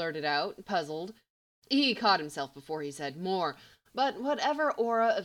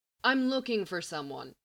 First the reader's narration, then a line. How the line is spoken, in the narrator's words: he said